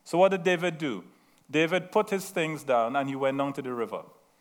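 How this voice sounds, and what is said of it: Slight Trinidadian accent. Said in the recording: “I have a slight accent, very slight... I'm from Trinidad”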